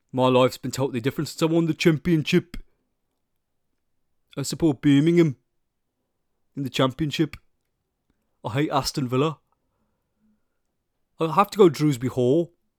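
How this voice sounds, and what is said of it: Attempted Birmingham (Brummie) accent. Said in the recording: “Can I do a Brummie accent? ... Okay, that was slightly better.”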